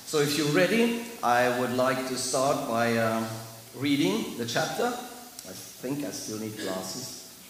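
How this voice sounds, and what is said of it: Heavy German accent. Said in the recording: “my heavy accent. It's not East European, it's German.”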